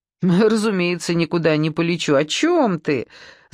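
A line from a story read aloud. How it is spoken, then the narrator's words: Laughing. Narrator (Russian): засмеялась Саша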